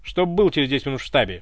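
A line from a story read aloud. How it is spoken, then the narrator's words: Cold commanding secretary. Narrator (Russian): Приказным тоном, холодно, кинула секретарша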